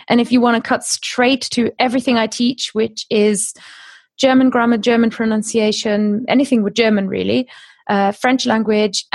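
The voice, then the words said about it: British accent. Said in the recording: “as you can hear in my accent, I live in Britain”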